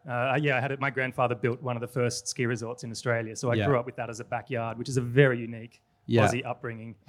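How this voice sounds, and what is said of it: Australian accent. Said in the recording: “I've got an Australian accent”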